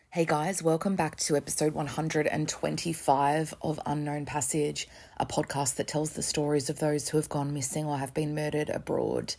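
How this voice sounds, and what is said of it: Slightly weird, gravelly voice. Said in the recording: “my voice sounds a bit weird... swelling in my neck from surgery... taken a bit of a battering... recovering from the knock to my vocal cords... sometimes it sounds a bit gravelly, but not like in like a sexy way”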